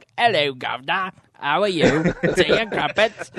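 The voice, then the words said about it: Exaggerated Dick Van Dyke Cockney accent. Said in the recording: “to do the Cockney accent that like Dick Van Dyke did in Chitty Chitty Bang Bang is so insulting”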